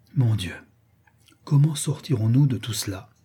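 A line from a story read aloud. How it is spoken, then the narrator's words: Murmured. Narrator (French): murmura la comtesse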